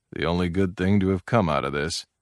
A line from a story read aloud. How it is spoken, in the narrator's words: Muttering under his breath, he said